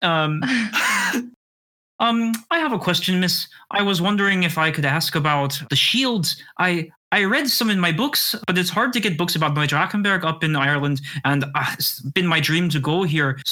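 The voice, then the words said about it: Imitated Irish accent, not very convincing. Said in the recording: “Sorry, if it's not a very great Irish dialect.”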